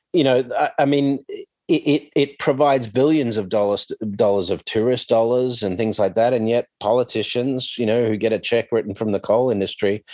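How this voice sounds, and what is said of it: Australian accent. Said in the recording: “hearing your accent, you know, the Australian government”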